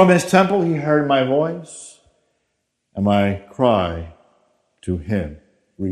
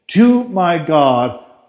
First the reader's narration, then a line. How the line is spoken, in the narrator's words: I cried for help